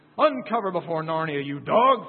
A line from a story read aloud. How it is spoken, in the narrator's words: thundered the Lord Baron